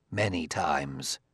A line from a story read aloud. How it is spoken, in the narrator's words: said Liebig grimly